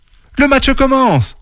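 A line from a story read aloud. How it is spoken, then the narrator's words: Journalist exclaiming. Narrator (French): s'exclame la journaliste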